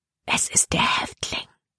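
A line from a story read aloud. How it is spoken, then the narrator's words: Whispered. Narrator (German): flüsterte sie Caleb zu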